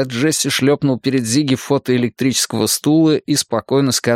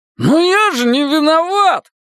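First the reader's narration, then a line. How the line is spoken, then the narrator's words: Wailing. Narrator (Russian): взвыл Зигги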